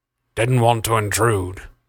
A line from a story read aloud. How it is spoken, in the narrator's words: Crest growled